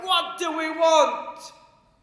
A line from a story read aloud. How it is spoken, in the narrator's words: Somebody will shout